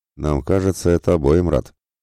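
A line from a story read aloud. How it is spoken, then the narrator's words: Surprised snort. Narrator (Russian): хмыкнул удивленно Мирослав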